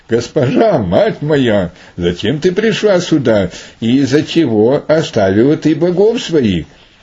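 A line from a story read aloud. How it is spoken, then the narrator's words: Said joyfully. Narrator (Russian): сказал ей радостно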